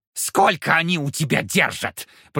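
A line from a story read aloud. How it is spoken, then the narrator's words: Furious shriek. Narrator (Russian): провизжал с яростью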